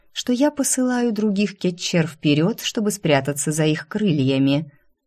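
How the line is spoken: Silky insinuating clarification. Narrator (Russian): вкрадчиво уточнила Кизония

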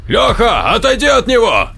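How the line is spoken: Shouting. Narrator (Russian): прокричал Сергей

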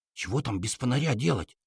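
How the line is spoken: Whispered question. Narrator (Russian): так же шепотом спросил я

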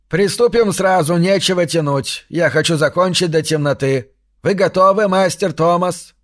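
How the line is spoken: Barking shout. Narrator (Russian): гаркнул он

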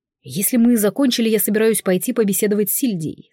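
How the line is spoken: Plain. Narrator (Russian): сказал Райанар

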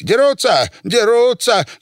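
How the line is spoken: Shouting. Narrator (Russian): кричал Василий Иванович

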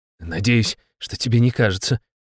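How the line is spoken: Muttering under breath. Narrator (Russian): буркнул себе под нос председатель

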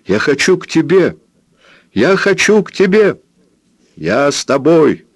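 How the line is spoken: Shout. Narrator (Russian): закричал Роберт Джордан

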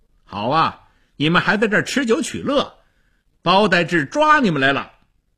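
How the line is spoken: Loud. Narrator (Chinese): 张骞大声地说

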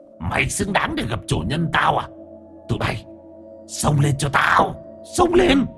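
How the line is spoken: Woman shrieking. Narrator (Vietnamese): Ả rít lên

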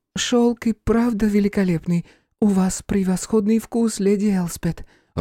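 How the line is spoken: Timid. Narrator (Russian): робко сказала Бернадетта

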